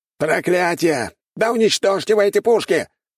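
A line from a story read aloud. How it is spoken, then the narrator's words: Shouted. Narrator (Russian): выкрикнул культиватор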